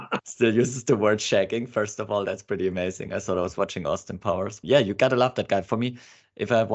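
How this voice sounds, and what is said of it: Usual voice. Nothing is said of it.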